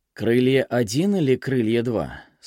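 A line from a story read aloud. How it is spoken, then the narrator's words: Plain question. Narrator (Russian): спросил он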